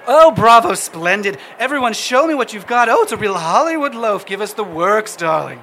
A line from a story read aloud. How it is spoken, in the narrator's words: She shouts